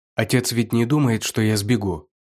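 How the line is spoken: Plain. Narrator (Russian): спросил Ху Фэйцинь

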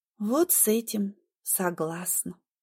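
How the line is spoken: Quiet. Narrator (Russian): говорю я тихо

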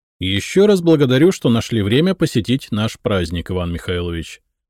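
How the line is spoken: Fairly loud. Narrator (Russian): достаточно громко сказал я

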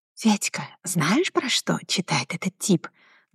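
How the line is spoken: Whisper in ear. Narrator (Russian): зашептала девушка на ухо

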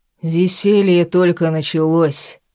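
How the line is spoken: Deep voice over loud music. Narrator (Russian): пробасил он сквозь долбящие по голове музыкальные биты

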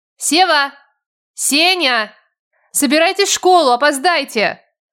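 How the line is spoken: Shouted. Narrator (Russian): Крикнула я

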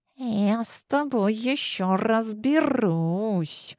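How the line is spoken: Hissed. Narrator (Russian): прошипел граф

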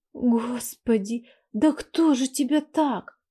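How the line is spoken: Trembling voice. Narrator (Russian): Дрожащим голосом проговорила я

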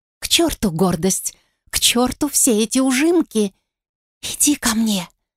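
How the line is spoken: Whispering. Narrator (Russian): прошептала я

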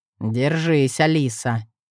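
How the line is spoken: Quiet. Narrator (Russian): тихо сказал

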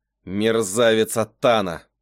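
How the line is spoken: Growling. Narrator (Russian): прорычал Гавриэль

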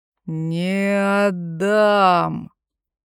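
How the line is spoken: Howling. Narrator (Russian): взвыл бармен

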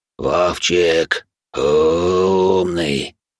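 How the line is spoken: Hoarse rasp. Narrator (Russian): прохрипел он

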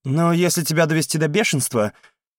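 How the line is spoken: Smirking snort. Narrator (Russian): хмыкнул Даниэль

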